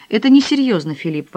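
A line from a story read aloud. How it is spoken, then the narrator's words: Exclamation. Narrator (Russian): воскликнула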